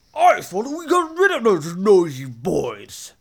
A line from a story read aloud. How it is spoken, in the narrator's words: snapped the Lord